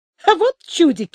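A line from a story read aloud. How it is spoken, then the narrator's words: Laughing. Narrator (Russian): смеялся он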